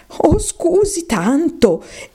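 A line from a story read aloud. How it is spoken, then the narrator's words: Anxious apologetic exclamation. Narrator (Italian): esclamò Alice, che temeva molto d'aver ferito i sentimenti del povero animale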